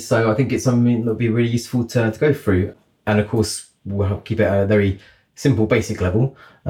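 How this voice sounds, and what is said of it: Congested, bunged-up voice. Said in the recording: “I've got a bit of a cold, so my voice is sounds a bit bunged up.”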